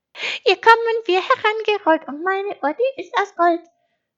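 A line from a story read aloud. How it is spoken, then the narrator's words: Sung loudly. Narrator (German): sang Schaf laut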